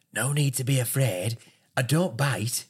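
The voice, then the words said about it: Imitates another person's voice. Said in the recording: “Good impression. ... Good impression.”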